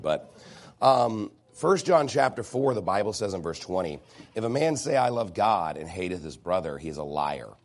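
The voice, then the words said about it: Hoarse, nearly lost voice. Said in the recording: “My voice is almost gone.”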